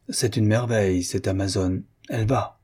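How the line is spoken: Earnest, heartfelt tone. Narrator (French): Il dit, d'un ton pénétré

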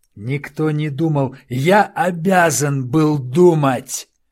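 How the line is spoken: Shouting. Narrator (Russian): закричал Тарачини

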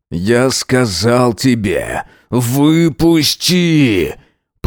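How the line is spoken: Growled through clenched jaws. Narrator (Russian): Прорычал, сжав челюсти

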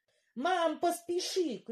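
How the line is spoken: Shout. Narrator (Russian): крикнула я

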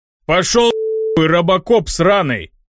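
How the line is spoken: Man barking. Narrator (Russian): рявкнул мужчина

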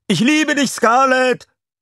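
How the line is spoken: Crowd shouting. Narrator (German): manche schrien

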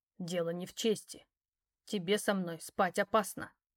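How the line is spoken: Icy cold tone. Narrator (Russian): ледяным тоном произнес он

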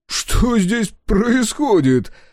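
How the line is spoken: Laughing loudly. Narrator (Russian): расхохотался Дозер

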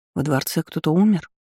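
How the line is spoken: Whispered question. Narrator (Russian): шепотом поинтересовалась

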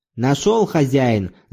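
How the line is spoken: Distant shout. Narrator (Russian): закричал издали

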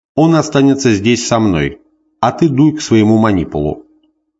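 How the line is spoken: Stern speech. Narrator (Russian): И сказал строго Муцию

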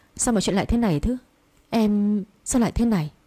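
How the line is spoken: Frightened trembling voice. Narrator (Vietnamese): Sắc mặt của bà trắng bệch, run rẩy nói

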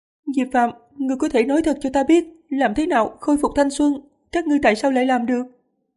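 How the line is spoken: Earnest, pleading question. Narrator (Vietnamese): không khóc nữa, chăm chú, gần như năn nỉ, hỏi

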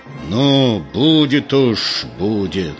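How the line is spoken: Angry, through gritted teeth. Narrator (Russian): Егор сказал зло сквозь зубы

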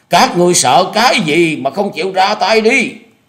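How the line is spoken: Exhausted, straining loud shout. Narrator (Vietnamese): Lý Ngọc Lân thu hết tàn lực hét lớn

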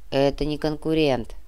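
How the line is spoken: Grumbling. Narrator (Russian): проворчал Муба

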